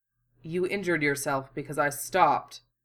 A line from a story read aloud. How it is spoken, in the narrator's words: Hiro said, in his cold, precise voice